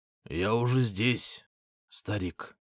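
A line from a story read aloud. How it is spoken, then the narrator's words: Hoarse rasp. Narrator (Russian): прохрипел я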